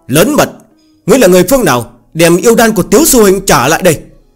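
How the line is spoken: Shout. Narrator (Vietnamese): quát lên

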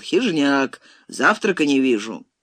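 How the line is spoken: Regretful sigh. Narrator (Russian): с сожалением вздохнул Таманцев и, быстро оборачиваясь начальственным баском, но весело вскричал

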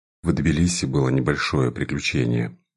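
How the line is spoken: Sighing, reluctant reply. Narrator (Russian): ответил я, вздохнув и все еще надеясь, что удастся обойтись без подробностей

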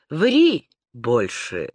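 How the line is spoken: Calm male voice. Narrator (Russian): спокойно произнес мужчина

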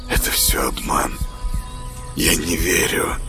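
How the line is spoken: Whisper. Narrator (Russian): прошептал Саня

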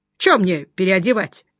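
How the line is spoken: Loud laughter. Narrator (Russian): захохотал Жеглов

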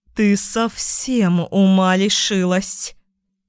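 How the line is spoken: Hissing mother. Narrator (Russian): зашипела мама

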